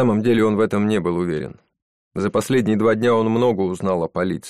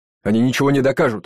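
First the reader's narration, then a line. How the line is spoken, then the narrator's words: Shouted out. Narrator (Russian): выкрикнул Джейсон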